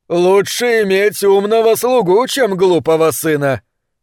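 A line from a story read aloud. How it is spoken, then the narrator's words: Speaking with loud laughter. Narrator (Russian): Зайедан Гунсалар Шахин с громким хохотом говорил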